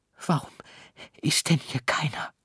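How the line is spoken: Whispered. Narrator (German): flüsterte Emil

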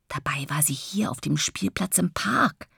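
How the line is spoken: Father whispering. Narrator (German): Papa flüstert

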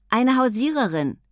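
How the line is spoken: Called out. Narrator (German): rief Mia

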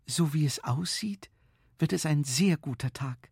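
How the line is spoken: Whisper. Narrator (German): flüsterte Frau Knopf

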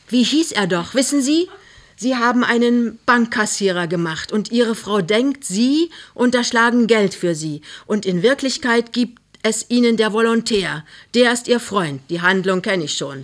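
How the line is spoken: Plain. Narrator (German): sagt der Schauspieler

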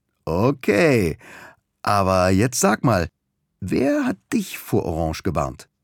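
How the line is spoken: Laughing. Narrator (German): lacht auch Halime

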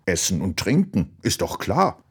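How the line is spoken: Fish's grunt. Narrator (German): Der Dorsch in der Ecke grunzte

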